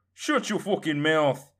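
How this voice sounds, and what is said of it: Unpleasant put-on Irish accent. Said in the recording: “me Irish accent isn't that pleasant.”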